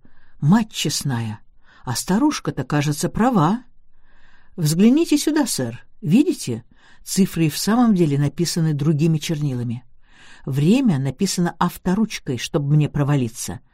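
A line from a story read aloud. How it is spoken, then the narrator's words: Exclaiming. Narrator (Russian): инспектор воскликнул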